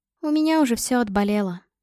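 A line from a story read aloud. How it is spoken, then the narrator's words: Sad smiling tone. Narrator (Russian): грустно улыбалась она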